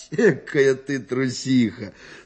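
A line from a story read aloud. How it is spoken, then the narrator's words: Laughing, teasing. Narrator (Russian): смеялся он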